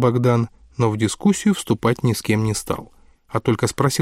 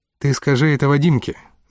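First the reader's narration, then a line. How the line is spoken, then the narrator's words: Gloomy. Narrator (Russian): мрачно предложил Тенгиз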